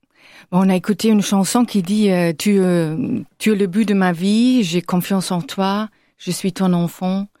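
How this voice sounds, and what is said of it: German accent in French. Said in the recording (French): “on l'entend à votre accent, vous êtes d'origine allemande”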